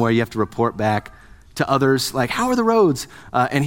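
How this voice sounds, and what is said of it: Usual voice. Nothing is said of it.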